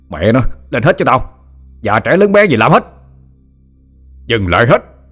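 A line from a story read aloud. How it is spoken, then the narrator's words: Angry yelling. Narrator (Vietnamese): Thằng Thiện tức quá mà la lên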